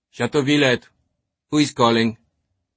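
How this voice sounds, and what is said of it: Irritated French accent. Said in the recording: “an irritated French accent spoke”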